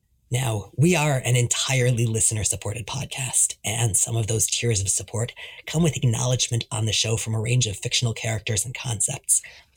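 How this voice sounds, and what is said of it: Hoarse, worn-out sick voice. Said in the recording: “I'm sick this week, my voice is totally shot”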